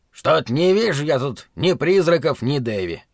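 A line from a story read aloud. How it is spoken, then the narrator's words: Grumbling. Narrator (Russian): ворчал мастер Тримлер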